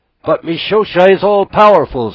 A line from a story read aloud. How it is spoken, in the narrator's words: screamed the gulls